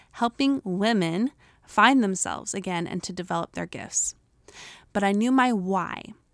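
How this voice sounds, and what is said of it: Utah American accent. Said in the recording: “my Utah accent”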